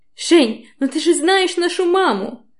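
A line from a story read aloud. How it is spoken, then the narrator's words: Almost offended wail. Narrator (Russian): Почти обиженно вопит Таня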